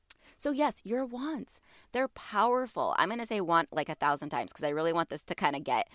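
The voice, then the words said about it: Stuffy, congested voice. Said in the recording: “I know I sound stuffy. ... My allergies are acting up. So forgive my voice”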